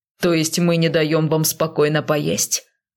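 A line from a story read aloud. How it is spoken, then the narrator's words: Growling. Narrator (Russian): рычал Безликий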